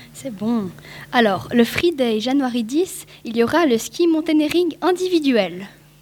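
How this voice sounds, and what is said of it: Poorly pronounced English, French accent. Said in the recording (French): “ton accent anglais est vraiment de mauvaise qualité... soit tu prononces juste”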